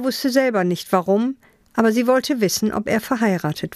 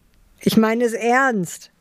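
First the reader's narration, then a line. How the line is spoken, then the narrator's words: Laughing. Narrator (German): sagte lachend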